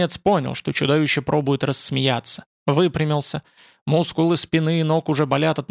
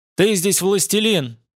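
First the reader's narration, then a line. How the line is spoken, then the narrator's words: Shout. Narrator (Russian): крикнул он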